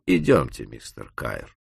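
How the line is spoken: Calm. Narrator (Russian): Маккола спокойно сказал

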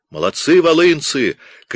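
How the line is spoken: Shouts from the crowd. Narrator (Russian): кричали им с тротуара

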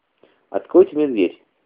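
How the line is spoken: Dry request. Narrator (Russian): сухо просил Люлю

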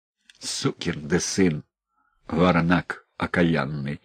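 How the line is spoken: Quiet cursing. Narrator (Russian): слух негромко ругался он

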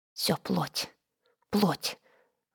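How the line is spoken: Muttering under breath. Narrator (Russian): бормотала она, по своей привычке бормотать себе под нос

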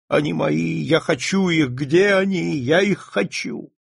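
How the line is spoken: Sobbing. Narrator (Russian): Чем более старались ее утешить, тем сильнее она рыдала

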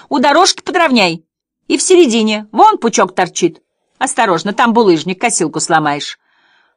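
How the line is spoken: Shouted. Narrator (Russian): А миссис Тис ему кричала

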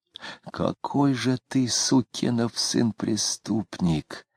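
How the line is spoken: Furious whisper. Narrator (Russian): яростно шептал он

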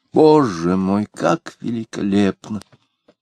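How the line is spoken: Sighing. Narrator (Russian): вздохнула Варвара

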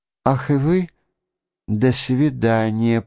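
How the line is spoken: Habitually affectionate babbling. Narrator (Russian): пролепетала она привычно ласковым тоном

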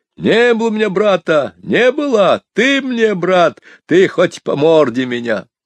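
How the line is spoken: Tearful shouting. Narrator (Russian): кум мой, целуясь, обливаясь слезами, кричал

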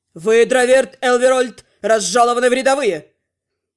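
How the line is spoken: Hearty barked shout. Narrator (Russian): От души рявкнул Тёрн

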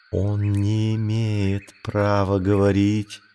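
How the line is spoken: Whisper. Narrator (Russian): прошептала Багира Маугли

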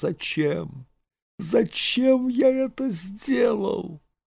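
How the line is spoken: Sobbing, desperate whisper. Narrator (Russian): Он всхлипывал и шептал отчаянно

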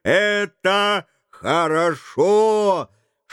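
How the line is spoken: Shouting. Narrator (Russian): Но тот кричал

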